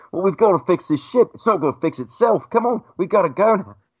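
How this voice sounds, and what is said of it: Chewbacca voice with English accent. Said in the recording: “Chewbacca talking with this English accent”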